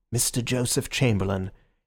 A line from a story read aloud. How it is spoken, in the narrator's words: From the doorway there came a murmur of